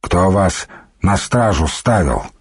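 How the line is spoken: Plain. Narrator (Russian): спросил Духарев

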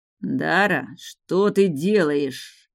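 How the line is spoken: Hiss. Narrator (Russian): прошипел Рис

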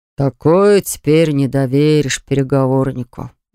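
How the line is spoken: Sighing. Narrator (Russian): вздохнул Веро

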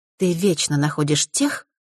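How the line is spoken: Plain. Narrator (Russian): сказала

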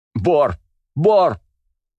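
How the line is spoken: Girl screaming at full voice. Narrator (Russian): во все горло закричала девушка

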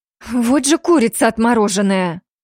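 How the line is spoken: Breathless exhale. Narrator (Russian): Выдохнула Аяка, скидывая оковы оцепенения

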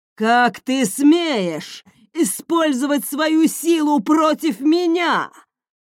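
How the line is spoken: Roar. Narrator (Russian): взревел он

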